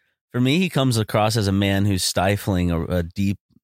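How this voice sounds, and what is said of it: Usual voice. Nothing is said of it.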